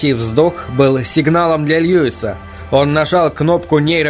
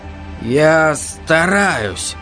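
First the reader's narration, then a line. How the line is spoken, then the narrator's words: Tired. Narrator (Russian): сказал он устало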